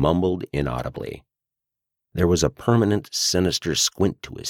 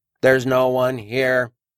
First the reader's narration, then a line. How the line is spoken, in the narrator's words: said in a flat public announcement voice